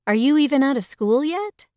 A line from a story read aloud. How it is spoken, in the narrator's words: Yuna laughed